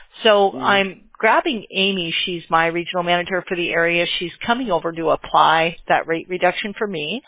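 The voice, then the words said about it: Strained voice, losing it. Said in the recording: “I'm losing my voice already.”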